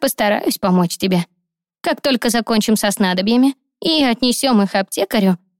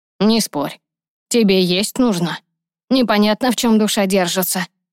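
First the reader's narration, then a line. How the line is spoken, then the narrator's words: Old man's grumble. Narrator (Russian): проворчал старик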